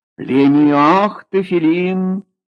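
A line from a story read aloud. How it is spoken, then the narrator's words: Loud. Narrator (Russian): сказал громко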